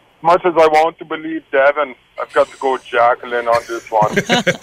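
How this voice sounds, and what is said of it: Put-on accent, imitates another person's voice. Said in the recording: “Gotta get the accent.”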